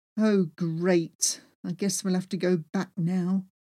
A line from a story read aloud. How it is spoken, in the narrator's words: grumbled